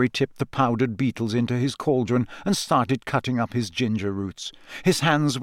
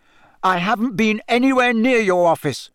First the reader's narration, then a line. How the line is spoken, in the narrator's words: said Harry angrily